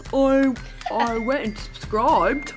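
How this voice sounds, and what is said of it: Imitates another person's voice. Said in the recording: “that impression”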